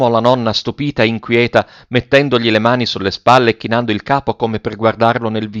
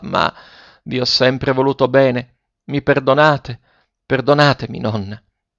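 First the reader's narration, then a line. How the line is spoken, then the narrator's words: Halting, trembling voice. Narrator (Italian): continuò Ferruccio a stento con la voce tremula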